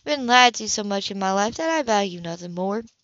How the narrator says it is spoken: she added quietly

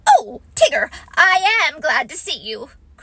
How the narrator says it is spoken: cried Rabbit

